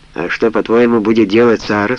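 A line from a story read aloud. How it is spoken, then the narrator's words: Plain. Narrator (Russian): спросил Осман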